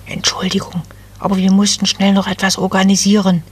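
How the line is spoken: Whisper. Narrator (German): flüsterte eine der Wipfelelfen

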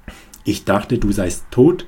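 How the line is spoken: Harsh, brutal. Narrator (German): sagte Maria schroff, mit einer Brutalität, die mich erstarren ließ

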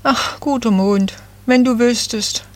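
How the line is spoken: Sighing little fir tree. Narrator (German): seufzte das Nadelbäumchen

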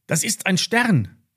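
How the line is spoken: Called out. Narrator (German): rief Lilly

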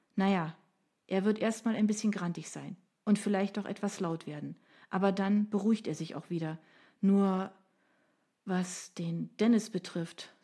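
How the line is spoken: Sighing. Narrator (German): seufzte sie

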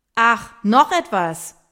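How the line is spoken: Shouted after someone. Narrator (German): brüllt Hendrik Miriam hinterher

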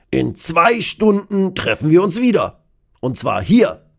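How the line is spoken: Calling out. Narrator (German): ruft Kurt

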